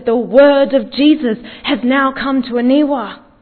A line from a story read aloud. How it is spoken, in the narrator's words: he cried out and he said